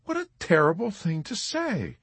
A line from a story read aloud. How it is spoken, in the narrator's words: Nurse Kramer exclaimed